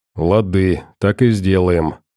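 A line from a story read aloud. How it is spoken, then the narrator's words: Said through gritted teeth. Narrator (Russian): процедил Гром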